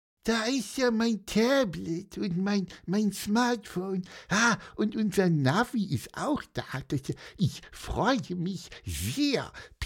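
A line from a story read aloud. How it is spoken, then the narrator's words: Sleepy squeak. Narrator (German): piepste er immer noch ein bisschen schläfrig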